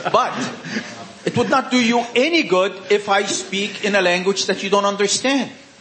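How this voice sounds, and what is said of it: Non-native English accent. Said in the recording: “My native language is not English, as you could tell.”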